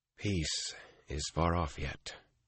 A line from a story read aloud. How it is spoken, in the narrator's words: he said softly